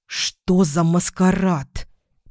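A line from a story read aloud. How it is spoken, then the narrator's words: Tense hiss. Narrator (Russian): прошипела я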